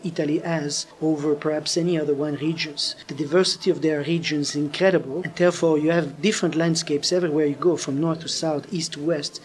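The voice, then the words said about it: French accent. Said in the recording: “you can hear my French accent.”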